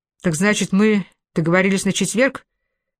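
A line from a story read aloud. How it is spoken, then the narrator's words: Hurried. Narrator (Russian): торопливо уточнил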